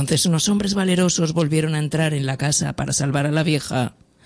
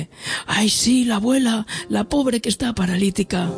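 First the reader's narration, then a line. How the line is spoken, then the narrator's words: Daughter shouting loudest. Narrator (Spanish): Y la hija gritó más alto que nadie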